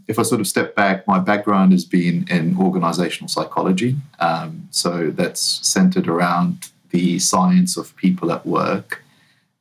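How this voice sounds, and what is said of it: New Zealand accent. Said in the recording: “you can probably tell by my accent, I'm not originally from the US... I grew up in New Zealand”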